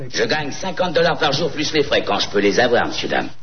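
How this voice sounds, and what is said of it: Imitation of Lieutenant Colombo's voice. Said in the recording (French): “Comédien spécialiste en imitation... Lieutenant Colombo, brigade criminelle, police de Los Angeles”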